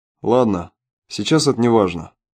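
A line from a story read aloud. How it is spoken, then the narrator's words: Calm commander. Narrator (Russian): спокойно произнес командир Соколов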